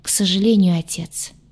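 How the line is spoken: Heavy sigh. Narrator (Russian): тяжело вздохнул он

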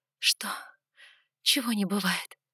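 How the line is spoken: Breathless. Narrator (Russian): выдохнула я

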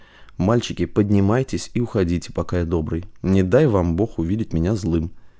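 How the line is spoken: Very quiet, private. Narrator (Russian): сказал Василий Косте, проговорив очень тихо, чтобы слышали только они

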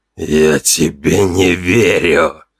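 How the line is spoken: Hissing. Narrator (Russian): прошипел он

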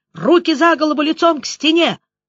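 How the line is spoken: Yelling in chorus. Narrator (Russian): заорали хором

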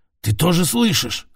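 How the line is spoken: Hoarse question. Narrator (Russian): спросил с хрипом

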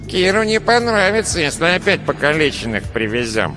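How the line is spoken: Nasal, earless man. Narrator (Russian): прогнусавил безухий

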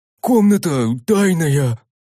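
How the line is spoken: Warrior breathed out. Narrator (Russian): выдохнул воин

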